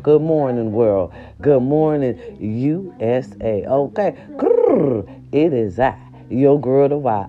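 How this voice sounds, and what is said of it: Sick-sounding voice. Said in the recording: “hear the sickness in my voice”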